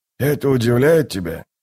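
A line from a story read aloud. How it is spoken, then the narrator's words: Plain. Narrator (Russian): спросил Дуджик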